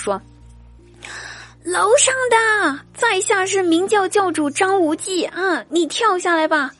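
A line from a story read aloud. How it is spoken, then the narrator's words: Shouting. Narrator (Chinese): 一个逗逼 大喊道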